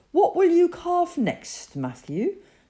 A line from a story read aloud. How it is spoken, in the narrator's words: asked excitedly